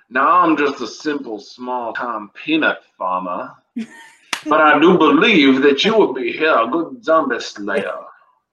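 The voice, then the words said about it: Put-on Southern accent, character voice. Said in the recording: “my best impression of the man ... talking with a southern accent”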